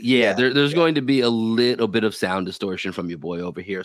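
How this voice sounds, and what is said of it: Raspy, nasal morning voice. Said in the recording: “the voice may be a bit raspy today ... It's a bit nasally.”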